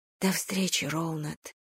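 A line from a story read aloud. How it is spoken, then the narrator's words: Whisper. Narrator (Russian): прошептала я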